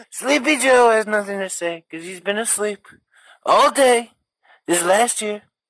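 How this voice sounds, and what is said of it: Donald Trump impression. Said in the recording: “there's his Trump, which was not bad ... that was a very good Donald”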